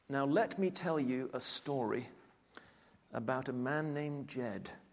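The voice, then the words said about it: Put-on Shakespearean accent. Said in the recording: “my best Shakespearean accent”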